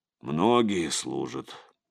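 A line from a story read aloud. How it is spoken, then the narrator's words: Muttered. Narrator (Russian): пробормотал Игорь Савич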